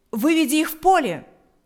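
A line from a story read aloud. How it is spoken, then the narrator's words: Shouting. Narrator (Russian): закричал Павел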